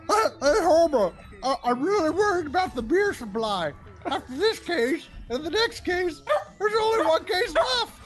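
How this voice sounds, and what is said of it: Barney Gumble impression. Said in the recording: “to do a Barney Gumble impression ... I felt like I started that off pretty good, then I lost it.”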